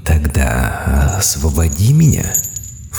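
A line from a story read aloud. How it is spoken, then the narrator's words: Insinuating whisper. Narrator (Russian): вкрадчиво прошептал Чарубаэль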